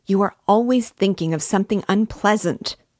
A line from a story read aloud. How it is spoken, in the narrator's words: he cried with aversion